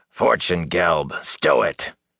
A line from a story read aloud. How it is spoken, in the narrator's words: growled a man